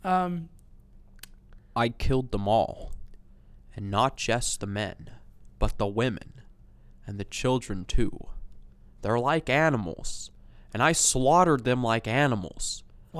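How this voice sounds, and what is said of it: Good Hayden Christensen impression. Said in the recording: “That's a really good impression of Hayden Christensen.”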